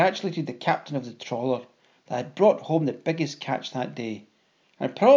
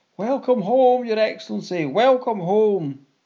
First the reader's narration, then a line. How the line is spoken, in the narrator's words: the villagers cried out